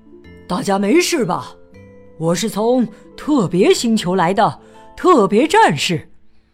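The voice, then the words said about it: Gentle, warm hero voice. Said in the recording (Chinese): “特别战士用温和的声音说道”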